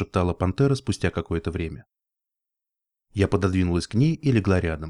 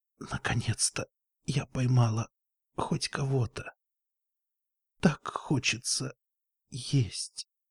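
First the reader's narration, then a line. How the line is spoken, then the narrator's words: Whisper. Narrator (Russian): прошептала пантера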